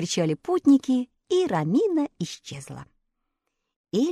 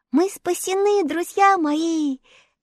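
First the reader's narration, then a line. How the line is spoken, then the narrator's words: Joyful shout. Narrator (Russian): весело закричала она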